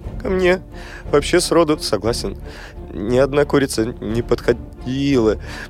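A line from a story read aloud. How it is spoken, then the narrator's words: Sobbing and stuttering. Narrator (Russian): всхлипывал и заикался Соловей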